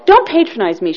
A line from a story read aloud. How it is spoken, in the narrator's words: she snapped